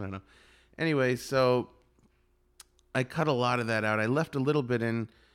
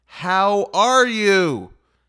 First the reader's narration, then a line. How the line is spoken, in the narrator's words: his grandson would go right up to his ear and yell